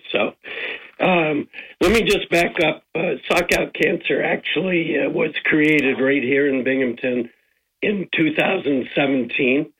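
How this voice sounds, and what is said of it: Hoarse voice from laryngitis. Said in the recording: “sorry for my voice. I have a little bit of laryngitis”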